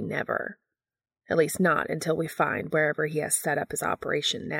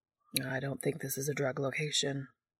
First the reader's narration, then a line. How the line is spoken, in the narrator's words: Balthazar says quietly to Castiel